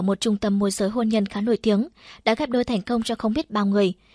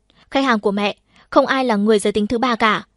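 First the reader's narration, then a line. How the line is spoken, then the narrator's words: Furious loud shout. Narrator (Vietnamese): Bà chỉ biết tức giận thét lớn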